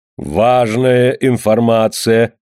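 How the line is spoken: Mocking comment. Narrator (Russian): насмешливо прокомментировал картину Вату-то

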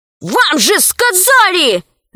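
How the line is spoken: Shout. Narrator (Russian): закричал он

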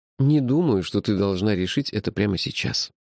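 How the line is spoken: Softly. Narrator (Russian): мягко сказал я

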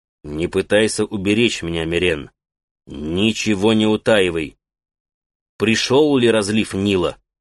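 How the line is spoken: Stern. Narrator (Russian): строго произнес

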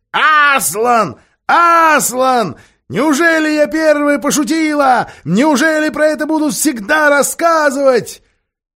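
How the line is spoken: Excited shout. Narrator (Russian): Галка так раззадорилась, что крикнула

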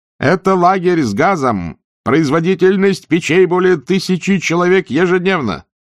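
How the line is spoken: Shouting into ear. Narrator (Russian): Офицер из СС прокричал в ухо Нойбуту

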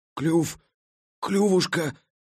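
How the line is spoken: Hoarse wheeze. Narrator (Russian): Просипел он

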